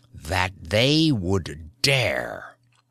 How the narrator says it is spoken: He snarled as the strength surged up in him

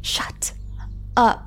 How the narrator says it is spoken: Marilyn hissed

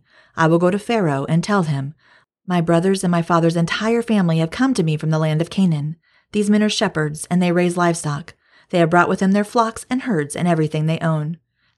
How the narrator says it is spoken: he said

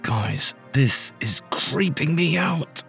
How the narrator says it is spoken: Gabby whispered through clenched teeth

